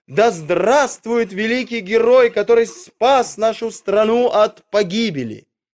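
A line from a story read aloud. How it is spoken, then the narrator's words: Ecstatic crowd shouting. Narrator (Russian): Люди в восторге кричали ему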